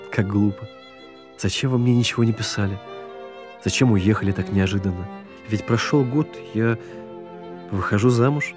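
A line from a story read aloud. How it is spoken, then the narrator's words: Tearful woman. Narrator (Russian): Сквозь слезы она говорит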